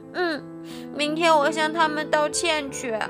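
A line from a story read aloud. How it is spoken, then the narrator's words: Calm after crying. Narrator (Chinese): 小猴子听了妈妈的话后，不哭了，对妈妈说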